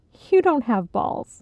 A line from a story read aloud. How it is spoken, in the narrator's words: Aunt Sheila giggled